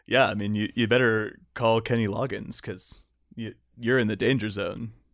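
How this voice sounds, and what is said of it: Deep-voiced impression. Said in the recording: “your best impression... It's just deep.”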